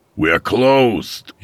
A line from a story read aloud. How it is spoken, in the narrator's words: he hollered